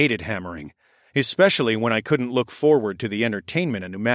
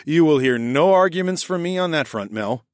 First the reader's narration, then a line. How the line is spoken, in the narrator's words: said with a huff of laughter